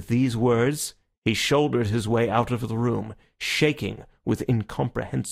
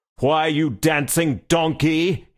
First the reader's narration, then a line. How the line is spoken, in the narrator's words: roared